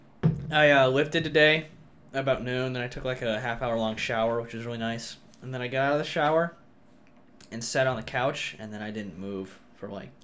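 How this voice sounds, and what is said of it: Slightly sick, congested-sounding voice. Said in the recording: “You sound sick... You sound like you got a cold... I can hear it... You can hear it a little bit... you sound a little sick, man”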